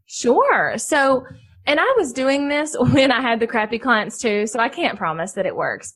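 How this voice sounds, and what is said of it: Southern American accent. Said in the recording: “they can hear my accent. ... because I'm Southern”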